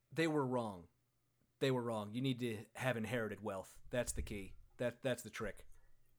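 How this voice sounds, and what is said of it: Imitates another person's voice. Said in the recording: “doing a Matt Berry impression.”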